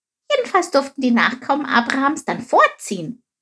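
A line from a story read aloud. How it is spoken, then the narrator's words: Plain question. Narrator (German): fragte Chip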